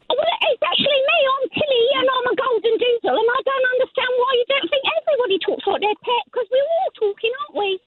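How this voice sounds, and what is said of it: Cheery put-on English accent. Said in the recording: “they have an English accent ... very fancy ... Sounds cheery”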